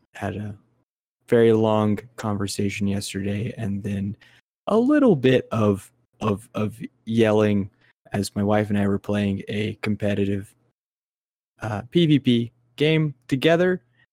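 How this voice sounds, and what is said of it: Hoarse, scratchy voice. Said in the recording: “My voice is a little bit hoarse ... I don't normally sound quite as scratchy as this.”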